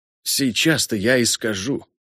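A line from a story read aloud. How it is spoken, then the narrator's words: Whisper. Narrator (Russian): шепнул Арно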